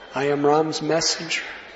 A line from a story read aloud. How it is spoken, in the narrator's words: Hanuman pleaded with her